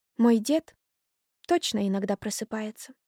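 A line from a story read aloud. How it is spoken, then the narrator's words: Quiet. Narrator (Russian): тихо сказала она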